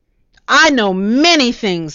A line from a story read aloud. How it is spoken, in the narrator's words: the farmer yelled back